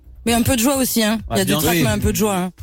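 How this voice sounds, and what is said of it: Southern French Avignon accent. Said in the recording (French): “j'ai encore l'accent d'Avignon ... l'accent est resté ... J'ai gardé un peu l'accent d'en bas.”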